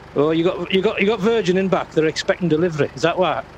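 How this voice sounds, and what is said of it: Strong accent, hard to understand. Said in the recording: “Sorry if you can't understand my accent.”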